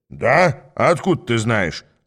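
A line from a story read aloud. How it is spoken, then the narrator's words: Snapped. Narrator (Russian): огрызнулся мой товарищ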